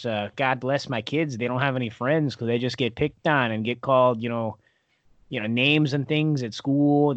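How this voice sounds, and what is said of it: Thick Wisconsin accent. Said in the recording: “us Wisconsins, we're you know we're we're really close to the Canadian border ... that's why the accent ours is especially thick”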